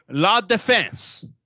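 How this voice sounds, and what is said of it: Poor put-on French accent. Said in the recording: “That's my French accent. It's not good.”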